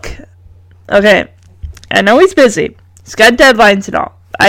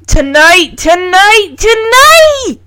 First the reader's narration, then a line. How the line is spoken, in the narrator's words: She practically screams at him in frustration